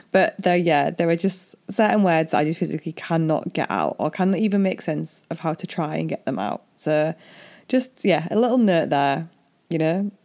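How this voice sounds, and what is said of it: Strong Hull English accent. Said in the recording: “I have this strong Hull accent”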